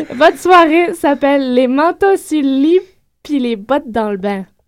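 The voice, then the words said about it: French from France accent. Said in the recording (French): “mon accent de belle petite française”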